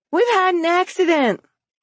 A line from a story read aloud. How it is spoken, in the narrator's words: the children … shouting